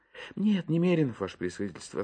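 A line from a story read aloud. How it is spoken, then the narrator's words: Guilty sigh. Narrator (Russian): ответил Иван Евсеич и виновато вздохнул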